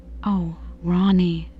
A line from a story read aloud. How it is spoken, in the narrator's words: I exclaimed